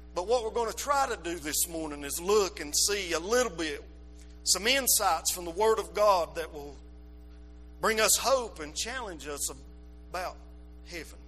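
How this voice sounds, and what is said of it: Appalachian hillbilly mountain accent. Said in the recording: “I got that old hillbilly mountain accent. There ain't no way this old crazy tongue”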